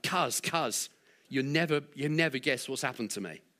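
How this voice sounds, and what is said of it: London accent. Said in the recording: “he's from London, so you've got to imagine a London accent.”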